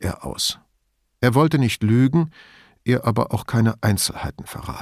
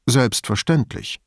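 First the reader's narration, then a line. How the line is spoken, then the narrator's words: Plain. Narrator (German): sagte Brunetti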